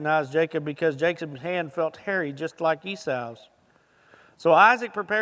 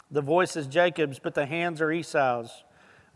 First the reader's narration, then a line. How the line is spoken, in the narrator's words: Isaac said